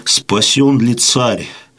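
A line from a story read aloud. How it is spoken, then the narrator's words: Weak voice. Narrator (Russian): проговорил Сусанин слабым голосом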